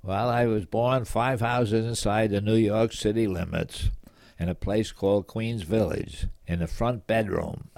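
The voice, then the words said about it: Slight East Coast American accent. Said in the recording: “there's a little East Coast to your accent”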